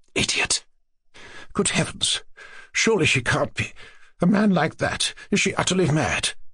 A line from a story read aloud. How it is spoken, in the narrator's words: her mother muttered to herself